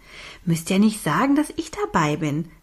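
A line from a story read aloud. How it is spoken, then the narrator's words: Giggling. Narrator (German): Sie kicherte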